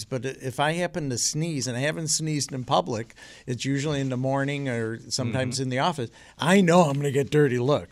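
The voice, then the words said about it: Slightly hoarse, froggy throat. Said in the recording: “I have allergies ... I have a little frog in my throat.”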